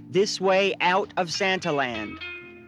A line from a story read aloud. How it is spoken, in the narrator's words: I worked as an exit elf, telling people in a loud voice